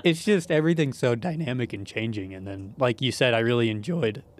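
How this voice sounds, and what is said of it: Voice cracking. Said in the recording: “my voice is cracking all over the place”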